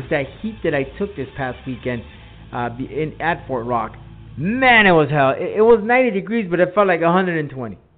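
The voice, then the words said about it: Slow, drawn-out speech. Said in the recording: “I'm talking so slowly”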